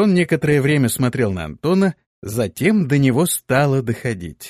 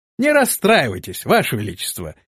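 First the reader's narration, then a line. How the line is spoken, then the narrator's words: Cheerful reply. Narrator (Russian): бодро ответил рыцарь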